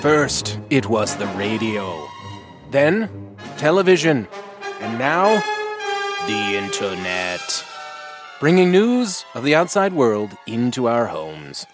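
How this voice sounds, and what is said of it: Old newsreel announcer voice. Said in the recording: “That was my announcer voice. I'm doing an old newsreel.”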